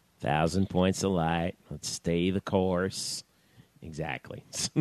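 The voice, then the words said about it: Poor imitation of another person's voice. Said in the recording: “Dana Carvey ... doing George Bush, man. ... That was a terrible impression. ... that was an awful Dana Carvey.”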